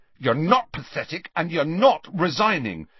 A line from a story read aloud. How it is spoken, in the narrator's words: said Harry fiercely